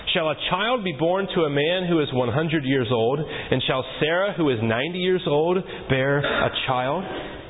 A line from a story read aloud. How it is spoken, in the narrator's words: Abraham ... laughed and said in his heart